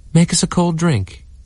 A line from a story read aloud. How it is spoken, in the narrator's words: cried Daisy